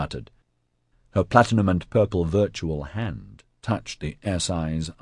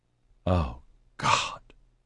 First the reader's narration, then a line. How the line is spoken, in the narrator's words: she gasped